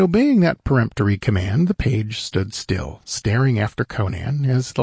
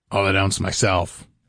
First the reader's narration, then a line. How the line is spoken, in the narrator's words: grunted Conan